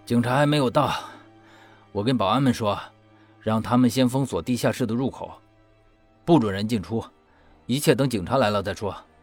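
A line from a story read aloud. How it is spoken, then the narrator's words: Low voice. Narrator (Chinese): 又压低声音说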